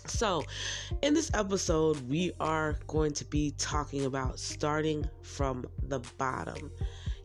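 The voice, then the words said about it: Slightly hoarse, congested voice. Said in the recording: “I'm going to be a little hoarse, as in a few of them, because I have bad sinuses... a little bit razzle-dazzled in the voice”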